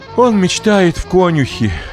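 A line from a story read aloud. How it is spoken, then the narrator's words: Sighing. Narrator (Russian): вздохнула Богданова мама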